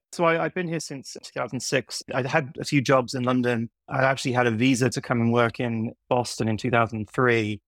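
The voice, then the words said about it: Mixed British and American accent. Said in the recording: “I have a bit of a strange accent because I grew up in the UK and I moved to New York ... somewhere between America and the UK ... when I'm doing work stuff, it's sort of veers more to the American side”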